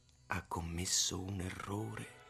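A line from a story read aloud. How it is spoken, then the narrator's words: Whispering. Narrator (Italian): mi sussurrò Utz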